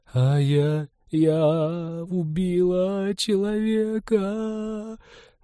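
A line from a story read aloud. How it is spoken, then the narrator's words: Muffled sobbing. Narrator (Russian): Глухо рыдала Ивета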